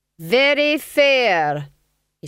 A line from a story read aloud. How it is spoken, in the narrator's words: said loudly